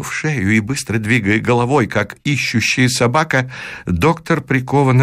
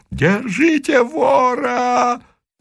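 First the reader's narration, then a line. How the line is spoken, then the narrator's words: Crowd yelling. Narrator (Russian): Вопила толпа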